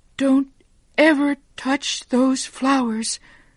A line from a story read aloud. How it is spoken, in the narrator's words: she cried